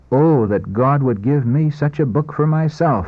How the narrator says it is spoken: With quickened pulse and throbbing heart, exclaim

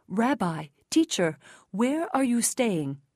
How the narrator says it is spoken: They exclaimed

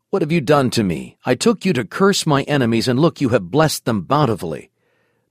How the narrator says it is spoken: he angrily exclaimed

